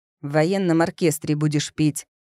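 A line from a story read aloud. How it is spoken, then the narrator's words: Growl. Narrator (Russian): рыкнул папа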